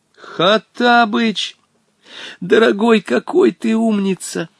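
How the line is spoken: Exclaiming. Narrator (Russian): воскликнул Волька

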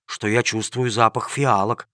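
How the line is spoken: Surprised whisper. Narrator (Russian): удивленно прошептал один из рабочих

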